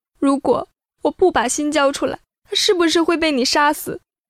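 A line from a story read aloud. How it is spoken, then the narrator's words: Sobbing. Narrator (Chinese): 傅宁痛哭流涕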